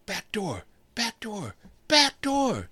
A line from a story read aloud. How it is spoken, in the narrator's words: he screamed at the smaller boy